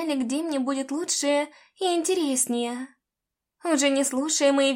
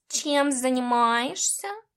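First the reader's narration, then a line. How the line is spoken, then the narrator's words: Cat's purr. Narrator (Russian): промурлыкал кот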